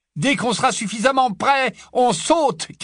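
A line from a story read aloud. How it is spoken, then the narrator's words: Shouted over shoulder. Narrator (French): cria Harry par-dessus son épaule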